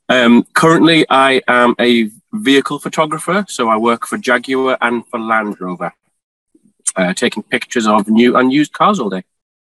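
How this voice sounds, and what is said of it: Geordie northeast English accent. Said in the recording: “I'm from England, if you can't tell already by my accent ... I'm from the northeast of England in a town called Newcastle. So that makes me a Geordie”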